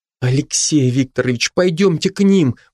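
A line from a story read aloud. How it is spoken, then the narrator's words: Pleading. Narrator (Russian): взмолилась Маша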